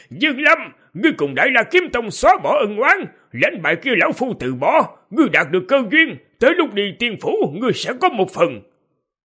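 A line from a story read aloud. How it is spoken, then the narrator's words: Long laugh, then shout. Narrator (Vietnamese): Lăng Thiên Hậu cười dài, quát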